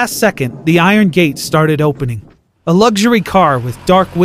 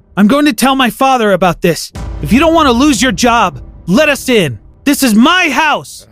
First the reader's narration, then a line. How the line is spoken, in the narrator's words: I screamed